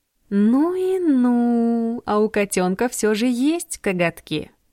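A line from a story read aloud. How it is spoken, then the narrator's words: Drawl. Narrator (Russian): протянула Джордан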